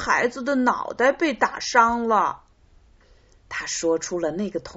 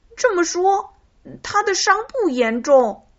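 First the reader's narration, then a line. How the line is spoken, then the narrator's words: Happy exclamation. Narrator (Chinese): 匹诺曹高兴的叫道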